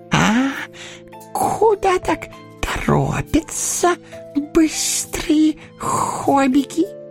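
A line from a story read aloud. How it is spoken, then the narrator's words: Squeak. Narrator (Russian): пискнул он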